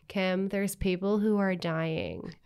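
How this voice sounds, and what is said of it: Dry impression of Kourtney Kardashian. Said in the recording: “very good, very very good impression. ... it was so dry”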